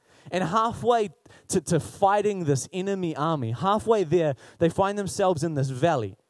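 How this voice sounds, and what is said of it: Usual voice. Nothing is said of it.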